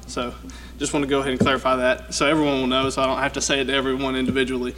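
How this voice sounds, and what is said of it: Southern US accent. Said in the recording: “I have a southern accent, so it's kind of hard to understand”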